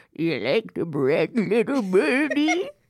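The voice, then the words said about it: Weird voice imitating a TikTok clip. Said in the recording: “your weird voice ... there's this TikTok where someone goes”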